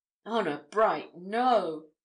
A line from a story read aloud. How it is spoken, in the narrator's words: exclaimed Spargo